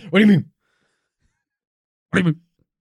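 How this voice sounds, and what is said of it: Impression of the other host. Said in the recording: “That's a good impression of me.”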